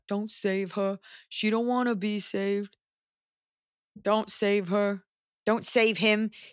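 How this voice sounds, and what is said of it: Put-on accent while singing. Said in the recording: “That was quite an accent.”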